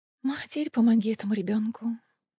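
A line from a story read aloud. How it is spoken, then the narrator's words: Sighing. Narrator (Russian): вздохнула Фейра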